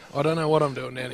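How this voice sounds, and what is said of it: Whispering. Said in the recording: “he's gone whispering ... What are you doing whispering”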